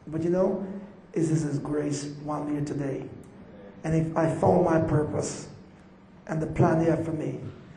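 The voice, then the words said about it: Jamaican accent. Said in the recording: “my Jamaican accent”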